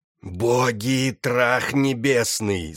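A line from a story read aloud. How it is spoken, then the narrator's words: Growling graveyard whisper. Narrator (Russian): зарычал он своим кладбищенским шепотом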